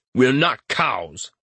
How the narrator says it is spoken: Aaron snarls

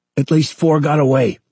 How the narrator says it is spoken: Kevin shouted

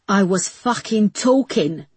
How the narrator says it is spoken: snarled the woman indignantly

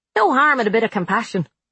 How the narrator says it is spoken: Frank said cheerfully, taking another big bite of whatever he was eating

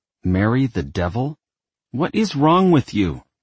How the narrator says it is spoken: she snapped

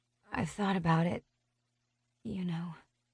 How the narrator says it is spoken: I mumble

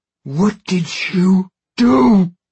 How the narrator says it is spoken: Babineau screams, as if it isn't obvious

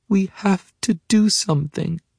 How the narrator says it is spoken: she says, and her voice shakes a little

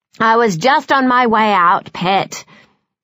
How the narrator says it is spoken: says Enigma impatiently

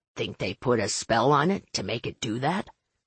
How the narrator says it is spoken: Finn muttered

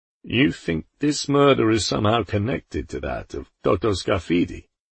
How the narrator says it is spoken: Poldi sighed

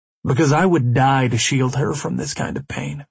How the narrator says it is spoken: I replied

